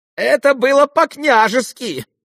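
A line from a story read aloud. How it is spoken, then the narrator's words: Shrill, cracked shout. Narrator (Russian): прокричал визгливым, надтреснутым голосом Ипполит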